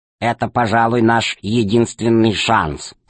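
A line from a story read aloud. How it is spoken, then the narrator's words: Plain. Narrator (Russian): сказал он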